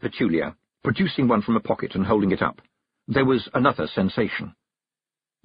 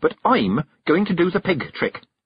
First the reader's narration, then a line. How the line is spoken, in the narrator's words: snapped Petulia